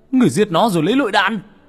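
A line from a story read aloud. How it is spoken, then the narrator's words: Roaring in disbelief. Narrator (Vietnamese): Người đàn ông mở to mắt như không tin, hắn gầm lên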